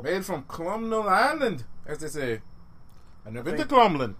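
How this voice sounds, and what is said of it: Bad put-on Irish accent. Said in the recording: “I'm sorry for my bad Irish accent. I'm drunk.”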